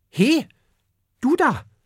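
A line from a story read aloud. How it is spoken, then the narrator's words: Sudden call. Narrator (German): ruft plötzlich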